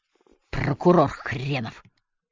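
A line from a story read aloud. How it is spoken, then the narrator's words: Hissing. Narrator (Russian): прошипел Валандер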